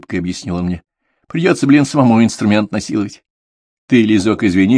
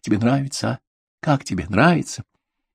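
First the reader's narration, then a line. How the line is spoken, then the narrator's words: Whispered question. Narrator (Russian): Лиза спрашивала шепотом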